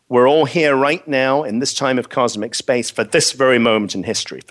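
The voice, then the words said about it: Speaks with a noticeable accent. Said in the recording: “don't put you off with my accent, because the accent never gets me anywhere”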